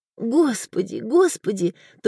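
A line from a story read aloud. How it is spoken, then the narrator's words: Sobbing repetition. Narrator (Russian): только и повторяла, всхлипывая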